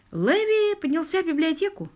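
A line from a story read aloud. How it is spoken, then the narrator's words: Plain. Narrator (Russian): сказал лорд Питер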